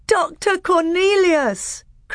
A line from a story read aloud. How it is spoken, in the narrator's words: cried Caspian with joy